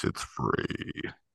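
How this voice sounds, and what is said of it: Deep radio announcer voice. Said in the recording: “I'm gonna use my radio voice. ... I had a deep kind of”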